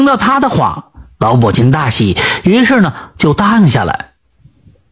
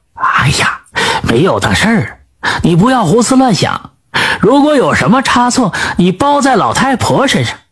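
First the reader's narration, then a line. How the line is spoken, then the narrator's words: Old woman, laughing. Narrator (Chinese): 吕老太太笑着说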